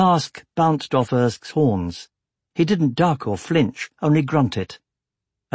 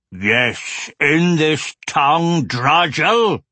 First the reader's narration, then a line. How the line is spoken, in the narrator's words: roared Skargaj